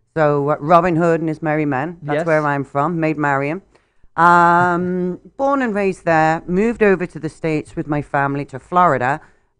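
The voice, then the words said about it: English accent from Nottingham. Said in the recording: “You have a lovely accent ... born and raised in Nottingham, England”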